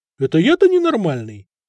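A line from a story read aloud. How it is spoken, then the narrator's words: Loud laughter. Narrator (Russian): захохотал Надир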